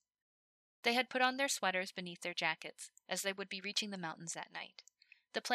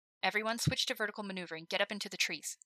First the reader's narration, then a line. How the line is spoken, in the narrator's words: Himmel said sharply